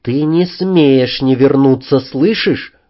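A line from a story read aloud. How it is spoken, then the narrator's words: Even voice. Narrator (Russian): ровным голосом сказала она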